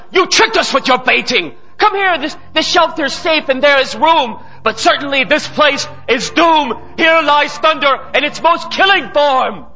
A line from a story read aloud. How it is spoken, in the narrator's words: someone cried